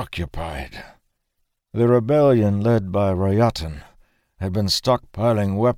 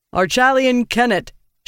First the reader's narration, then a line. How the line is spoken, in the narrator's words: she called out with a bonded voice, her words echoing through the Hold